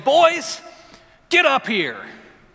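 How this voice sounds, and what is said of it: Raised, louder voice. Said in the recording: “I raise my voice a little bit”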